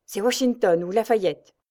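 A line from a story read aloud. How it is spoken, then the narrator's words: Fiery excited exclamation. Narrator (French): s'écria Roger, dont les yeux lançaient des éclairs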